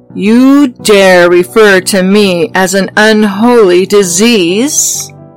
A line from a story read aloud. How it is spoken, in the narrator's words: He roars